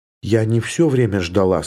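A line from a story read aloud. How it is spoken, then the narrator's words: Plain. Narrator (Russian): сказала она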